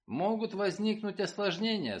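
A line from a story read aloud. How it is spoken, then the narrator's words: Grim. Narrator (Russian): сказал я мрачно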